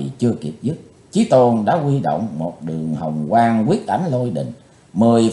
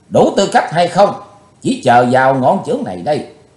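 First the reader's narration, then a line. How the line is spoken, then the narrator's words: Furious loud shout. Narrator (Vietnamese): Ngọn lửa căm hờn bốc cao ngàn trượng, Chí Tôn quát lớn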